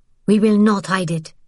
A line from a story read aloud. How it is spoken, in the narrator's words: Vian said sharply